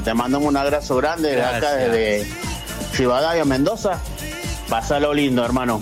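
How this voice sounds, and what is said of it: Mendoza regional Argentine accent. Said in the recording (Spanish): “ya tiene toda la tonada de Mendoza”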